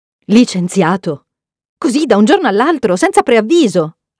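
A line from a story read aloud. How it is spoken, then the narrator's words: Mother's shocked exclamation. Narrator (Italian): ha esclamato mamma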